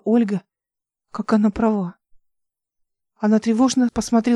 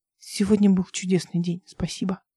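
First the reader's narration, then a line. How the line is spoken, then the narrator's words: Quiet. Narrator (Russian): сказал он тихо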